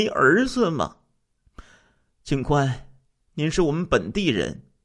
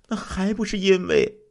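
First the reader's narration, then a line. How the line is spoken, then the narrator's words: Sighing. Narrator (Chinese): 于秀莲长叹一声说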